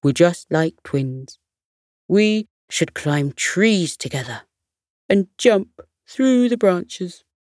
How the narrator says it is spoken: The monkey chuckled and said

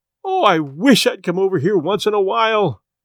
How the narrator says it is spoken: she cried

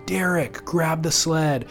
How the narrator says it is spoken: yelled at him for so long

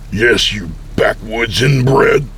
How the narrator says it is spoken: I spat in defiance

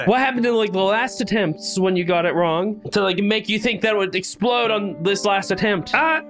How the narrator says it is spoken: Mike yells out

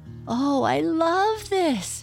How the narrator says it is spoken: cried Peter

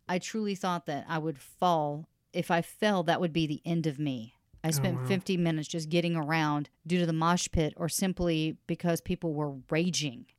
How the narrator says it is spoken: Sierra said

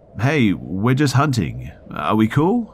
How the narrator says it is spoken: They weren't sure what it was at first, so they called out

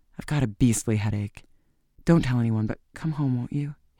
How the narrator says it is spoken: he whispered

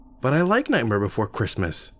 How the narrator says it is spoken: she said

